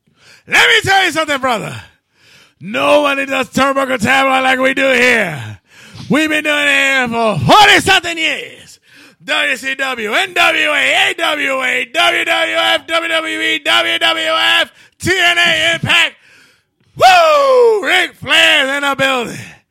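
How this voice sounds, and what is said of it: Imitates a wrestler's voice. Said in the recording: “he has to try to impersonate the best you can. So like for instance, I go, Ric Flair.”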